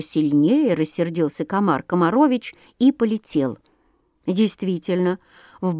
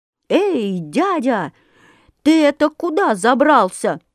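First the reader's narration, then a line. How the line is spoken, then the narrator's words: Loud, frightened shout. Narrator (Russian): закричал комар Комарович на весь лес, да так громко, что даже самому сделалось страшно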